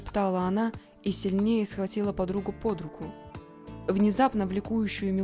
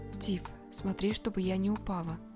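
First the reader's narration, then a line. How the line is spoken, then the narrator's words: Whisper. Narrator (Russian): шепнула Алина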